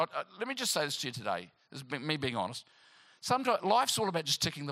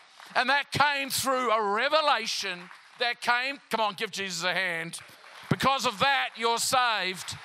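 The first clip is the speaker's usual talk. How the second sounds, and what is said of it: Loud yelling preacher delivery. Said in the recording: “Am I too loud? I'm yelling.”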